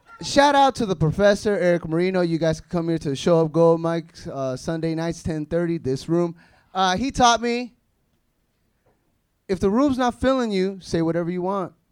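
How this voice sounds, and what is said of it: Guatemalan Spanish accent in English. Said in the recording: “That's my Guatemalan accent, I guess.”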